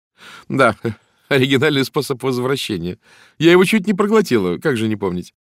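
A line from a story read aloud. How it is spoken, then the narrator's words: Chuckle. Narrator (Russian): Валерий хохотнула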